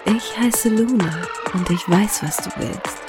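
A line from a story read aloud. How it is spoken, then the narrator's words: Seductive whisper. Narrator (German): hauchte sie ihm verführerisch ins Ohr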